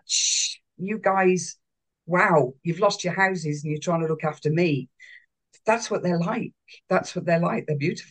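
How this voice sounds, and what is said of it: Emotional, choked-up voice. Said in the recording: “You can hear me getting emotional.”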